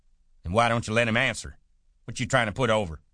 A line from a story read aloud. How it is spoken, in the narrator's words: George broke in loudly